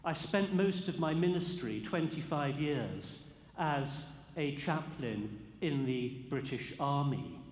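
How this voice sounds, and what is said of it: English accent. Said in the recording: “yours will be an unfamiliar accent ... an English accent to be heard in St. George's, Nashville”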